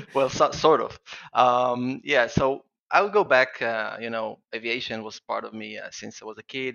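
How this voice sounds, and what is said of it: Israeli-accented English. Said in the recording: “apologize for my accent. I'm from Israel and I have a strange accent when I'm excited”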